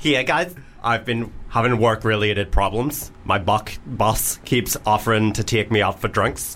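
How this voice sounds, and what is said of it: Put-on Northern Irish accent. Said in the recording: “Any accent particular, Lloyd, do you want me to do this one in? ... Well, Northern Irish. ... Right, Northern Irish. Northern Irish. ... Straight Northern Irish, not gay.”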